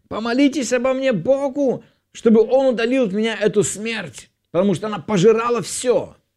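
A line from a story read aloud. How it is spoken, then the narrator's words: Shouted. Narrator (Russian): фараон закричал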